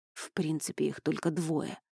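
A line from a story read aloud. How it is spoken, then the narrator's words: Muttering. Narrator (Russian): пробормотал Йоргас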